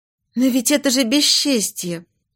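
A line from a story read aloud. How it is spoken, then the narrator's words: Sad smiling. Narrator (Russian): Фрейлина печально улыбнулась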